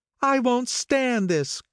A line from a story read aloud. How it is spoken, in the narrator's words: cried Daisy